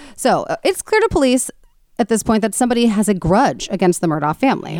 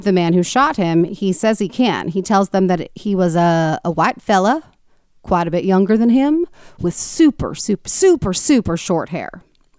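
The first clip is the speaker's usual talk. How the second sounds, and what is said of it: Poor Southern accent impersonation. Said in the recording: “that was a terrible Southern accent slash impersonation”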